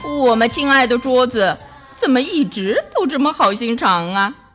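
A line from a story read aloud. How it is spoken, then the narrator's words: Smiling. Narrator (Chinese): 王子笑了笑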